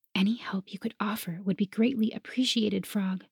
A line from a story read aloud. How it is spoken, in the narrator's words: I whispered